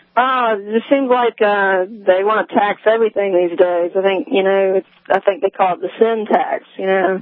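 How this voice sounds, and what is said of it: Noticeable regional accent. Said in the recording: “I love that accent. That's a cool accent you got going on there.”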